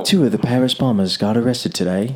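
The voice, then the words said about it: Put-on English newsreader accent. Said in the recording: “And it's in an English accent, so you feel like it's intelligent.”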